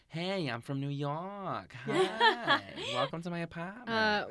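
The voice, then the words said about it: Imitating Toni Collette's New York accent. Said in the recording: “Tony's accent flex ... she's just doing a Brooklyn accent”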